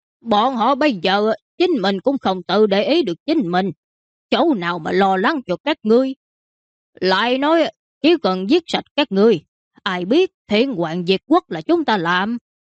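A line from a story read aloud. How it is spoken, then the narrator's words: Bandit laughing loudly. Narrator (Vietnamese): Mã tặc kia cười to hai tiếng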